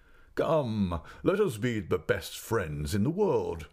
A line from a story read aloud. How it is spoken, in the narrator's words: said the gentleman, laughing